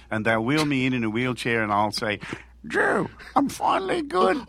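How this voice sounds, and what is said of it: Broad old-school Australian accent. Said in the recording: “you just got real old school Aussie there, man. That was like a Dubbo accent.”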